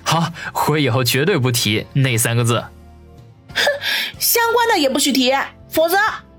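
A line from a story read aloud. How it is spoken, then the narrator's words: Sheepish, awkward. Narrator (Chinese): 王宇讪讪一笑说道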